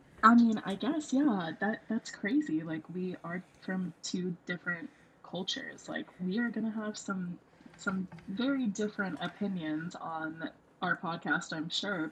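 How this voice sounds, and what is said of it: American accent. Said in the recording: “I'm an American. Maybe you would have gotten that from my accent.”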